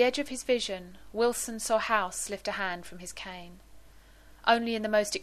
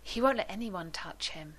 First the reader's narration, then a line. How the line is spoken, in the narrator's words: said sadly